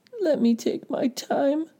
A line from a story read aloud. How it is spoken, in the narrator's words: pleaded Gray One